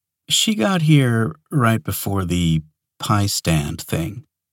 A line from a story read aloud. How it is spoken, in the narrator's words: Sonia said gently